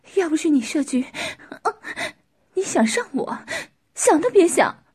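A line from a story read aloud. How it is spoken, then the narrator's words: Leering laugh. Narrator (Chinese): 男人淫笑着说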